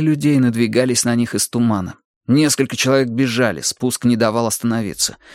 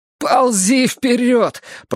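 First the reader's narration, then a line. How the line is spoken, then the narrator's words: Groaning. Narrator (Russian): простонал Джейсон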